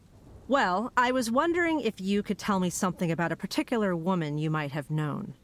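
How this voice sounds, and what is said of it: Put-on formal journalist voice. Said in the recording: “put on my best journalist voice.”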